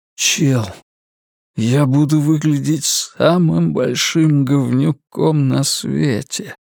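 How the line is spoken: Exhaled, self-loathing. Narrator (Russian): Наконец выдохнул Ларри, ненавидя жалкие и обидные слова, слетевшие с его собственных губ

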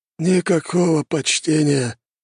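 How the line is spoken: Sighing paladin. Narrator (Russian): вздохнул паладин

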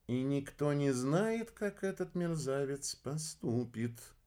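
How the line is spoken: Drawled. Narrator (Russian): протянула Арнелла

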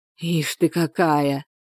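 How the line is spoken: Hoarse broken whisper. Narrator (Russian): хриплым, прерывистым шепотом заговорил Валерий

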